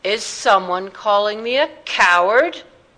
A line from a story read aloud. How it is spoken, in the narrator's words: boomed Philip Astley's unmistakable circus voice